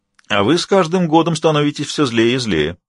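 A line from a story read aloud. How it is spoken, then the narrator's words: Cheerful. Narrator (Russian): весело сказал Вейлину мастер Хенталь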